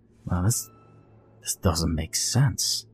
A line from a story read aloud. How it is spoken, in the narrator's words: I murmured ... in disgust